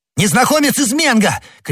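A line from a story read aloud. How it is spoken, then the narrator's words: Shouting back. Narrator (Russian): крикнул в ответ Д'Артаньян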